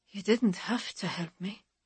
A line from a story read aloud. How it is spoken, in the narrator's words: she says, her voice very soft